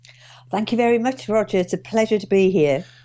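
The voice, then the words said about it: Durham northeast English accent. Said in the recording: “as you can hear from my accent, I'm not from Oxfordshire originally. I'm actually from Durham. ... this very cultivated Oxfordshire accent. Not.”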